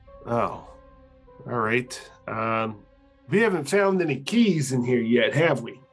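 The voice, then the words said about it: In-character voice. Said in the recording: “that was an in-character voice”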